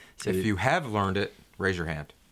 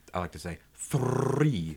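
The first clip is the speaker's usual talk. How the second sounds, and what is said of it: Slight accent with rolled R. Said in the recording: “with an accent. ... Well, slightly, I like to roll my R's.”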